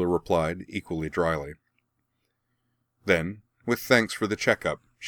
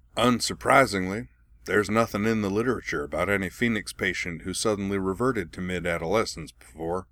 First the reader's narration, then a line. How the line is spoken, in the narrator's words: he added dryly